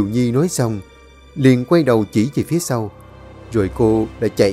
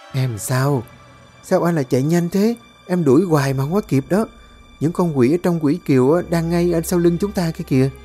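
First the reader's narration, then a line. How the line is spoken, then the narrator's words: Giggling. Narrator (Vietnamese): Kiều Nhi cười khúc khích rồi nói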